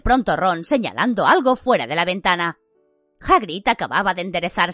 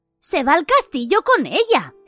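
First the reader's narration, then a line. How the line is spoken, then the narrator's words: Indignant exclamation. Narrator (Spanish): exclamó Hermión indignada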